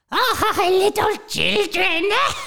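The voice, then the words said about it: High-pitched witch character voice. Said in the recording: “Do your witch voice? ... Pretty high.”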